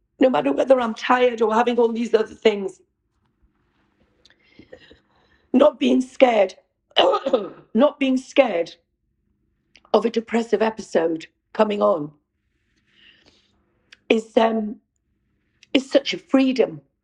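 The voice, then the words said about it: Emotional, tearful voice. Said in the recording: “getting emotional”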